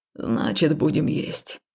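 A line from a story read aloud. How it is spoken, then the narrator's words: Glum statement. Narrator (Russian): уныло заявил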